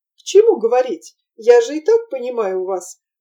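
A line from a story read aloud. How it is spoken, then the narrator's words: Laughing. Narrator (Russian): засмеялась Нина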